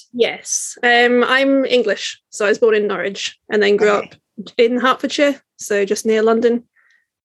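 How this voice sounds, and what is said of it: English accent, not Scottish. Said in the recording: “can I hear an accent of something that isn't Edinburgh born and bred?”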